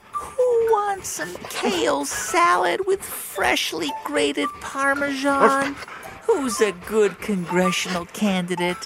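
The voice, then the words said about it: High-pitched baby voice. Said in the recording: “I'll use my high-pitched dog-directed voice ... in a baby voice.”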